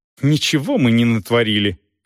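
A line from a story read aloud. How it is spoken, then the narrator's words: Irritated reply. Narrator (Russian): раздраженно ответила Дорс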